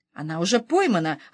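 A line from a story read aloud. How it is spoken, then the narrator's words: Plain. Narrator (Russian): ответил Насреддин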